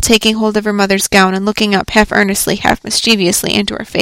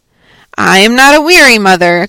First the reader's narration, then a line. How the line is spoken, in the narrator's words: cried the little girl